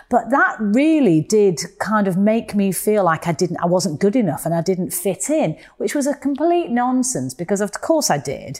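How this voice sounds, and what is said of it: Mancunian English accent. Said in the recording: “I spoke with a Mancunian accent, as I still do”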